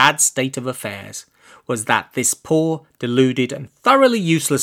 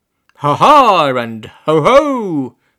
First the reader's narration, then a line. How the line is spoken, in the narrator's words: cried in triumph